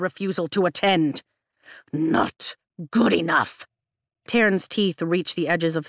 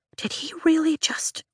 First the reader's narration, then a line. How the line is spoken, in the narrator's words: Rhiannon whispers